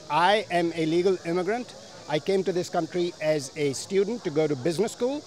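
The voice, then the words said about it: Non-native English accent. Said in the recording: “based on your accent, that you were not born here”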